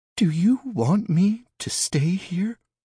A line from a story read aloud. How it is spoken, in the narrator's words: She asked, her voice quivering in vulnerability